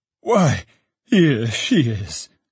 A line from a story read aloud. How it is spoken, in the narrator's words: cried Trotty